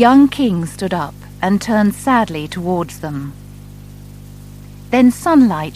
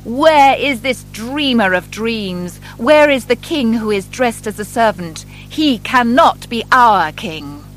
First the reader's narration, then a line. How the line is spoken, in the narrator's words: The government officers came into the church shouting